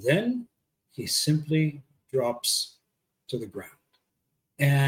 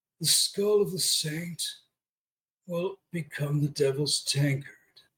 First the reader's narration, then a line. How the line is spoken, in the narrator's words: He groans